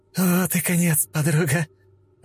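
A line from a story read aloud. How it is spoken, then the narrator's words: Forced laugh. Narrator (Russian): Альтера выдавила смешок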